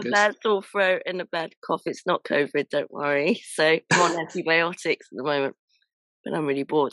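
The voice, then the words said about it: Croaky, hoarse voice. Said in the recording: “I've got a bit of a croaky voice ... I've got a bit of a bug, so my voice is very croaky”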